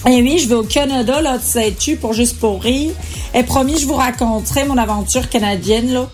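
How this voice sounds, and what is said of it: Approximate put-on Canadian French accent. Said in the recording (French): “cet accent approximatif”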